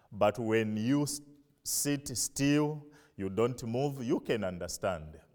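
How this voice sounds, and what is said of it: Non-native accent, hard to understand. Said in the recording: “My accent is difficult from yours. Sometimes it's difficult to hear my pronunciation and my words.”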